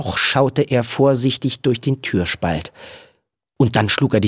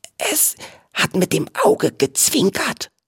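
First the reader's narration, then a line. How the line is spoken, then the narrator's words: Whispering. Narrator (German): flüsterte Viggo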